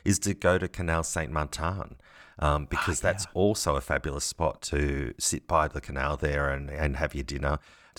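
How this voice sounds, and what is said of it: French words with Australian-tinted accent. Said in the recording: “your wonderful Australian-tinted French accent”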